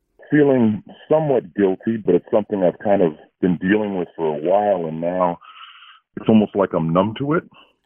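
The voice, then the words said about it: Electronically disguised voice. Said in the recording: “Your phone line's being run through our voice changer”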